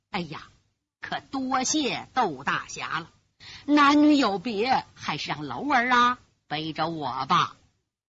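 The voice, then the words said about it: Trembling old woman's voice. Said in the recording (Chinese): “颤抖的声音”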